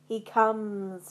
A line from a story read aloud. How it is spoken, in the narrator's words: she cackled